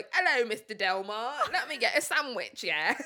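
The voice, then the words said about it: British accent, imitating an actor. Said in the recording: “Tom Holland wasn't going to be able to do the American accent ... British people, especially when they say the word sandwich”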